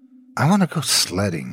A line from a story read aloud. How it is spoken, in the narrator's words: I muttered